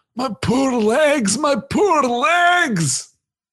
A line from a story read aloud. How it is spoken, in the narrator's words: Dory groaned